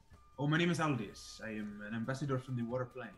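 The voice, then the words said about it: Character voice with exotic accent. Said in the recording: “I love your accent. It's just so exotic.”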